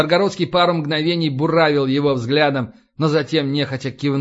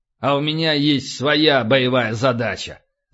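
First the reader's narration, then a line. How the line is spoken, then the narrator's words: Angry, curt. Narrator (Russian): зло отрезал полубой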